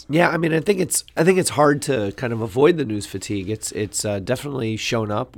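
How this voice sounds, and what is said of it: Voice in poor condition. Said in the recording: “Apologize for my voice.”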